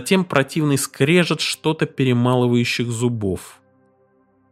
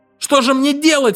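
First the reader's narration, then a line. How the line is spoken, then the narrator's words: Wailing again. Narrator (Russian): снова завопил я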